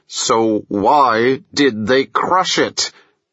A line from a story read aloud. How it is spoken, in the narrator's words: Through clenched teeth, Bo said